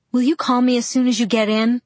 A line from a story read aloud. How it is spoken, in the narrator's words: I asked anxiously